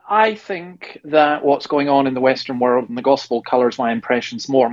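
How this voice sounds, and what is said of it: Scottish accent. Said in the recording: “your Scot accent”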